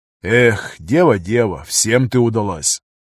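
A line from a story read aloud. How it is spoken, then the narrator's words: Sigh. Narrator (Russian): вздохнул пограничник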